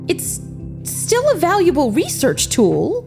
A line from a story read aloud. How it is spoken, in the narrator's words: Jin exclaimed